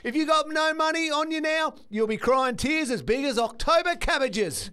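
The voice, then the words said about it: Put-on Cockney accent. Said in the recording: “It was Cockney. It was Cobber. ... There was a bit of Cockney about it. ... Guy Ritchie vibes”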